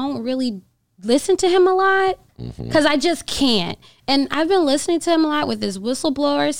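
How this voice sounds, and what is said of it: Usual voice. Nothing is said of it.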